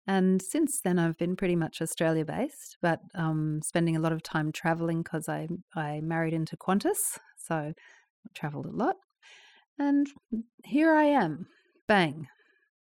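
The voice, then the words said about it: Canadian-influenced accent. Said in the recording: “I grew up a little while in Canada when I was learning to speak, hence the accent”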